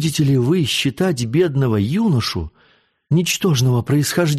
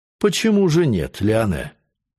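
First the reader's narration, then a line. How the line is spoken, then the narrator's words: Calm. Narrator (Russian): сказал спокойно приор Бон-Авантюр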